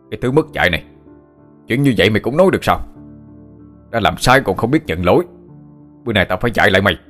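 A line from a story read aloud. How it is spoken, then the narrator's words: Angry shout. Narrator (Vietnamese): Ông ta quát lên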